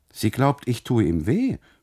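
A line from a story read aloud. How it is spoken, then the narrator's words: Call. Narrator (German): ruft der Kustode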